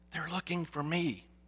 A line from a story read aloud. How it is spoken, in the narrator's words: Still whispering, the young voice replied, along with a muffled giggle